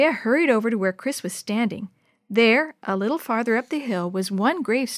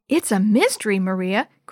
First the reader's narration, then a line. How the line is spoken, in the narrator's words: Chris said excitedly